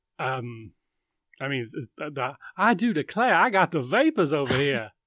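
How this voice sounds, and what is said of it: Bad put-on Southern accent. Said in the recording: “my terrible Southern ... your Southern accent”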